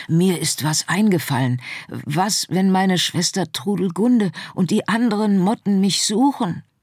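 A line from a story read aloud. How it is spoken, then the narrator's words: Excited whisper. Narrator (German): Aufgeregt wisperte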